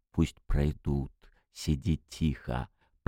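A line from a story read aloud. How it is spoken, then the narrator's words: Whisper. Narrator (Russian): прошептал он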